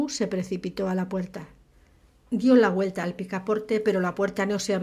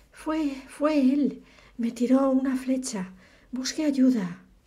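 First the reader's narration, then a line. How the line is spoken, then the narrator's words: Weak-voiced shout. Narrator (Spanish): Con voz débil gritó a Lou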